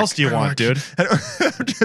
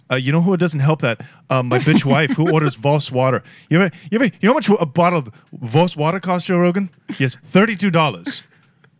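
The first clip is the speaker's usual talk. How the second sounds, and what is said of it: Imitates another person's voice. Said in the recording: “You do good impressions, dude... that Elon impression is good”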